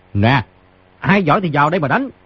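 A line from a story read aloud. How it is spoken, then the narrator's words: Loud laughing voice. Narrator (Vietnamese): Người trên giường hít sâu vài hơi, cao giọng cười nói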